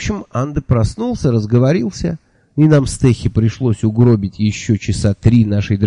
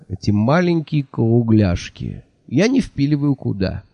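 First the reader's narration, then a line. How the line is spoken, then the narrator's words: Sighed. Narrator (Russian): вздохнул Анда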